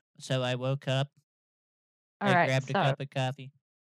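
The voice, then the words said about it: Flat monotone delivery. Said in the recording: “do it in a monotone and try and make it so they can't hear you ... In a monotone.”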